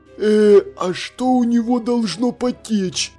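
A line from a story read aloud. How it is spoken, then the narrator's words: Anxious whisper. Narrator (Russian): Встревоженным шепотом переспросил сержант Колон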